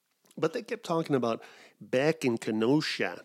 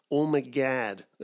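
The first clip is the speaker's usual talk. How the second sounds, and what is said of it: Attempted Midwestern American accent. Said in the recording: “I can't do a Midwestern accent. ... That's probably as close as I can get.”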